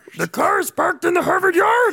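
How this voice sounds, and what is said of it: Grover impression. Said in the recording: “your Grover impression is so good”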